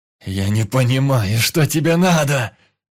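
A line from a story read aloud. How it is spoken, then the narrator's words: Angry yelling. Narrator (Russian): Со злобой орал Иван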